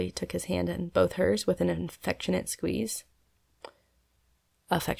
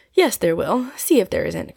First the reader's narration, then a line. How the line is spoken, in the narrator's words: cried Polly, nodding and smiling